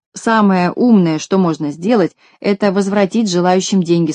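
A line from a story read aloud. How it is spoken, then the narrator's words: Plain. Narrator (Russian): сказал Козлик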